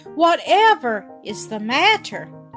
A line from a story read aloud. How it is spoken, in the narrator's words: cried Mother